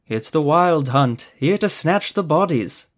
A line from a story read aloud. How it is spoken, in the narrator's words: Ethermel said in a lilting voice